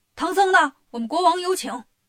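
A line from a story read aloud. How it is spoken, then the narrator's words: Soldiers shouting amid commotion. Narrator (Chinese): 外面乱哄哄的，官兵进来就喊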